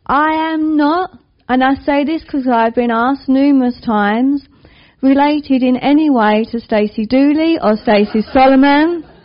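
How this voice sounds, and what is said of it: East London accent. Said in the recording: “you can guess by my accent, or maybe you can't, that I'm from the East End of London. People normally say Essex... I married an Essex man, hence my hybrid accent”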